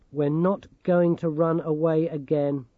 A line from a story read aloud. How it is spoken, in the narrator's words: she said flatly